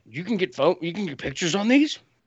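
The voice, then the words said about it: Bad imitation of another person's voice. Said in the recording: “my impression of Jon Voight done very badly”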